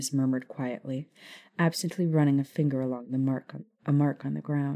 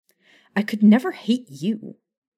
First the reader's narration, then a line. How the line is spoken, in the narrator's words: Maya snapped at him